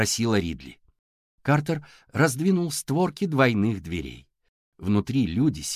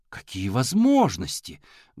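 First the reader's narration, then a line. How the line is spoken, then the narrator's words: Exclamation. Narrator (Russian): воскликнула мисс Паркли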